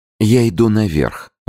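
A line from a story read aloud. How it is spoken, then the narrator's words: Lively exclamation. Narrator (Russian): воскликнула она оживленно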